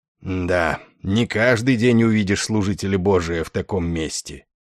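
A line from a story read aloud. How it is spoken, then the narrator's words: Grumbling. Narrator (Russian): проворчал генерал Дридл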